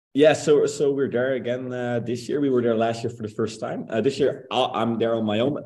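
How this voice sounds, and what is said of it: Dutch accent in English. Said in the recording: “find a Dutch accent person that's here”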